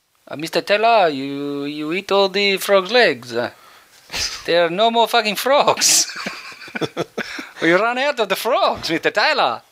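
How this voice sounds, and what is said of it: Put-on mixed Italian-French accent. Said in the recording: “Sounds a bit Italian. ... that's the Italian bloke. He's lived in France a long time, so he's got a bit of a mixed accent.”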